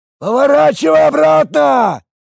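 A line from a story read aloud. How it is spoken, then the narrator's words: Shouting over roaring wind. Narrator (Russian): прокричал он сквозь гудящий ветер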